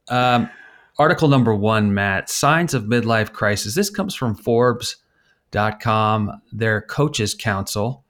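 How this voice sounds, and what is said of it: Newscaster voice. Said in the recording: “my newscaster voice”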